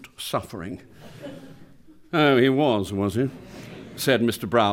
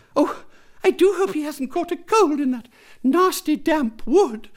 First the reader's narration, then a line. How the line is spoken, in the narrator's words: she said anxiously